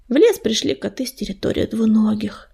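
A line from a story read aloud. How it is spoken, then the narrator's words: Explaining. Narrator (Russian): пояснил он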